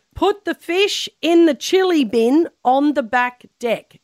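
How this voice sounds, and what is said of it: Attempted New Zealand accent. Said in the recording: “have a crack at your best Kiwi accent ... say that in your best Kiwi accent”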